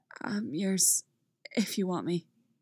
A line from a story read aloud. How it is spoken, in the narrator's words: he says, his voice rough